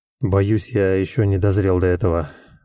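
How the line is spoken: Mumbled. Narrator (Russian): пробормотал Яцек

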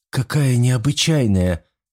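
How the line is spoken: Exclaimed. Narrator (Russian): воскликнула Эбби

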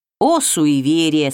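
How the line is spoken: Plain. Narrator (Russian): сказал владыка

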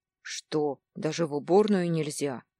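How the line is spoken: Discontented grumble. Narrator (Russian): пробурчал недовольно

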